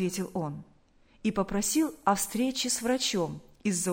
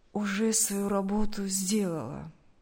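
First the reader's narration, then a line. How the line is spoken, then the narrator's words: Tired. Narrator (Russian): Поняв насмешку охранника, устало сказал Сергей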